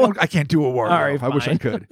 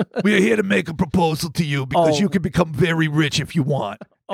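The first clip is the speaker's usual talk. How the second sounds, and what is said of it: Exaggerated mafioso Italian accent. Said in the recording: “Was this Italian accent? ... It's like the worst, like, mafioso.”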